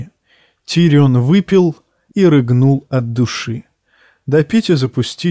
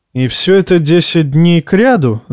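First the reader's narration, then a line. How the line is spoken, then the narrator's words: Laughing. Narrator (Russian): засмеялся Тирион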